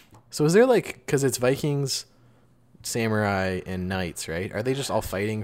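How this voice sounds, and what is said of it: Usual voice. Nothing is said of it.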